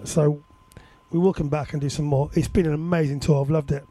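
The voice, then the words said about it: Hoarse, weakened voice. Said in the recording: “knowing that my voice is going to be a bit sketch”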